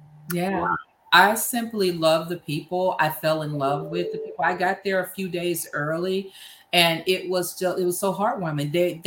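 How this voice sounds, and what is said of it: Noticeable regional accent. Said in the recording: “They claim I got an accent. I'm like, I ain't got no accent. They was like, oh God, yes you do.”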